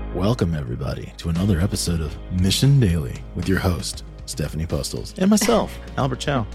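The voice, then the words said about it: Smooth radio announcer voice. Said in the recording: “Is that smooth? ... That was smooth. I'm wondering if people listening are like, who is that? Is there a new host on here? ... Radio voice for the win.”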